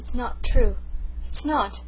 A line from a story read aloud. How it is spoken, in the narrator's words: gasped Rilla